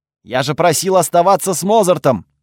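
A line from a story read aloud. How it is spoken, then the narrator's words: Barking. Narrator (Russian): рявкнул я на девушку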